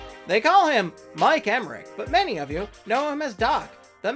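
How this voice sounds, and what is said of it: Usual voice. Nothing is said of it.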